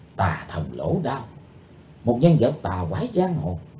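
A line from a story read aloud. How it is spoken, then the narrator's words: Soft whisper. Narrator (Vietnamese): Chí Tôn khẽ nói thầm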